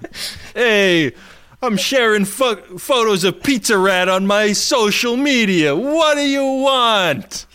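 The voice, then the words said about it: Poor put-on New York accent. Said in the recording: “your New Yorker accent fucking sucks”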